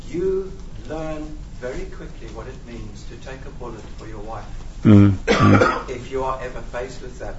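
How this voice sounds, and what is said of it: Non-local accent. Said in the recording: “the accent is not exactly local”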